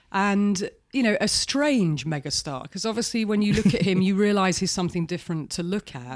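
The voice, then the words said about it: British accent. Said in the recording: “does not have our accent... She's from the UK.”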